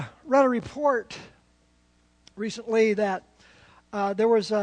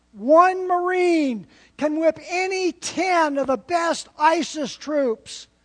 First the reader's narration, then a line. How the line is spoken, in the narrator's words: the voice yelled out